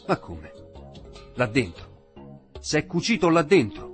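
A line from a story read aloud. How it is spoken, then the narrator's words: Shouted. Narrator (Italian): gridò al vecchio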